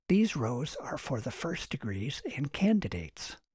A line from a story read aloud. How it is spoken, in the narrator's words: whispered